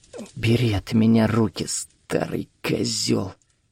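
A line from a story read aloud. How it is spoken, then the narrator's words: Barely audible. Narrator (Russian): еле слышно произнесла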